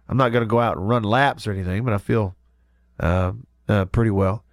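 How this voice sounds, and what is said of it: Congested, stuffy-nosed voice. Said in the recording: “I'm fighting the crud, so I'm still stopped up and all that. ... My voice is not 100%”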